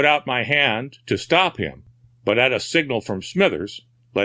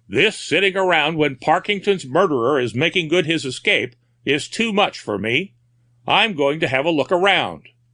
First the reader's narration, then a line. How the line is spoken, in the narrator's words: Fellows exclaiming